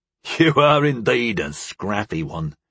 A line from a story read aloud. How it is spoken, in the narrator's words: Toffer chuckled in admiration